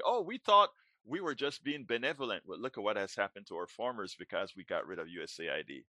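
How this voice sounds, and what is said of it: Speaks with a distinctive accent. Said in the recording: “I love to hear your accent. It's just, it gives me joy.”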